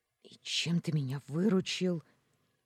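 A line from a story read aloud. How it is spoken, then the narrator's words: Surprised hiss. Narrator (Russian): Зашипела, удивляясь его логике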